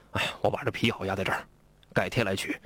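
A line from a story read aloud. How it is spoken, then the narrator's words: Wry laugh. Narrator (Chinese): 大汉一看苦笑了一声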